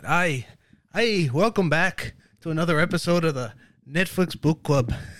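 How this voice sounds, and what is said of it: Attempted Irish accent. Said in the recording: “You can't do an Irish accent? ... I that was my attempt. ... But it was uncomfortable.”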